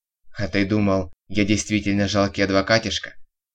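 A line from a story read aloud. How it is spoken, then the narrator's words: Smirking snort. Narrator (Russian): хмыкнул Виктор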